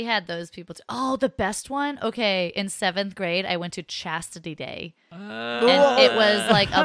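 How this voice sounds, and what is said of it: Usual voice. Nothing is said of it.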